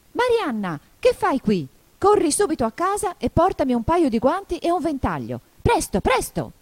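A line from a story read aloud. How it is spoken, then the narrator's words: Shouting angrily. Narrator (Italian): il coniglio gridò in tono d'ira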